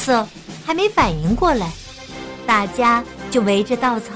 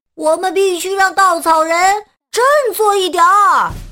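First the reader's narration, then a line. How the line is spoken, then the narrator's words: Calling out. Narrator (Chinese): 九月呼喊道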